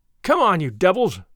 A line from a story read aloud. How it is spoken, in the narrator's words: he cried